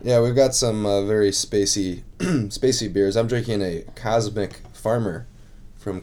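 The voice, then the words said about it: Voice rough from chest cold. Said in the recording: “as you can tell by my voice, I'm getting over a chest cold”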